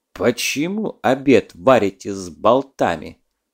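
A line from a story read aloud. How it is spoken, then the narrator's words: Stern question. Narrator (Russian): строго спросил капитан Кока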